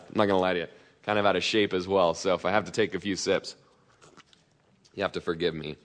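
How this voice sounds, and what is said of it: Out of breath, parched throat. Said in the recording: “my throat's a little parched. I'm a little out of breath.”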